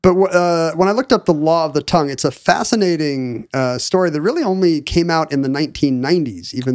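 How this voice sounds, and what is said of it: Usual voice. Nothing is said of it.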